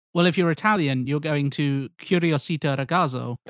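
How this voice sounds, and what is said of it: Terrible put-on Italian accent. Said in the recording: “terrible Italian accents”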